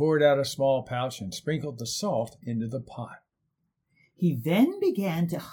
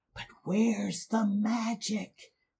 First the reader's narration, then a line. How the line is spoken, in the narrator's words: whispered to each other